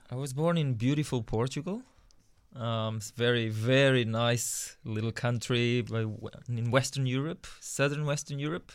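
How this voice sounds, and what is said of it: Foreign accent in English. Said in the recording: “we detect that you have an accent, as though you may have been born overseas.”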